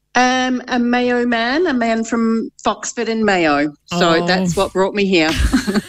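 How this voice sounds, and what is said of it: Strong New Zealand accent. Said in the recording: “a little kiwi twang ... still that strong”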